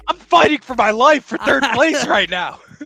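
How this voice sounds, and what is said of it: Yelling, loud heated voice. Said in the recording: “you're yelling at me over third place”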